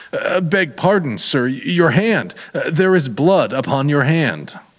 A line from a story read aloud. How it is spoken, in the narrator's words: Very pale, she stammered out